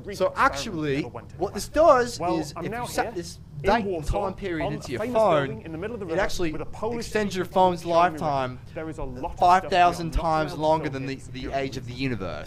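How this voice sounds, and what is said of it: Bad put-on British accent. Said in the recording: “my horrible fucking British accent”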